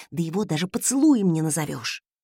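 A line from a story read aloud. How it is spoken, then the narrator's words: Indignant whisper. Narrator (Russian): возмущенно прошептала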